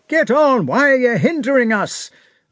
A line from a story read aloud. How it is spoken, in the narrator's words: One was shouting